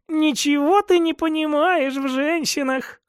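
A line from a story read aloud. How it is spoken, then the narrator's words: Laughing. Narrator (Russian): рассмеялась Соболева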